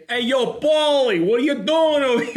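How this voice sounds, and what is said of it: Put-on Brooklyn tough-guy accent. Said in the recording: “I'm going to Brooklyn accent ... that's kind of like a tough guy thing”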